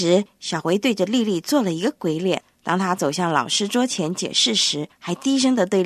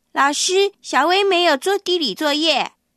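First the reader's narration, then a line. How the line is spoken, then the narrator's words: Loud announcement. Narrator (Chinese): 她就大声地宣布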